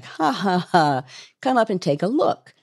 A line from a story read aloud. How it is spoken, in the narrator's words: Muskie is replying to laughingly